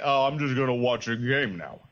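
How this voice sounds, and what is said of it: Slurred imitation of another person's voice. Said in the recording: “your Stallone impression. It sounds like he's had a stroke.”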